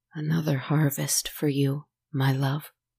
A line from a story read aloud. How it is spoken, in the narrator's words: he said softly